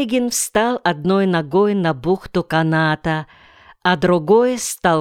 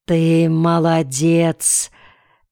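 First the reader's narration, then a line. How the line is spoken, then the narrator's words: Clear hoarse rasp. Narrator (Russian): отчетливо прохрипел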